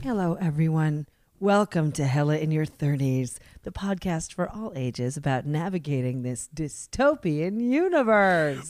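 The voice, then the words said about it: Slightly whispery voice. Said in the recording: “If you notice a little slight whisper in ... voice”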